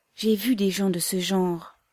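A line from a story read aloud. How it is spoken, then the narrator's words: Ardent exclamation. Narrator (French): s'écria-t-il avec ardeur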